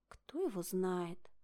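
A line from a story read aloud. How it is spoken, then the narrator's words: Sighed. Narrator (Russian): вздохнула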